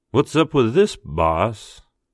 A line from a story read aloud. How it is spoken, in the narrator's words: Mitch drawled